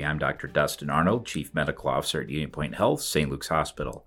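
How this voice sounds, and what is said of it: Deep polished radio voice. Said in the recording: “You have one heck of a radio voice.”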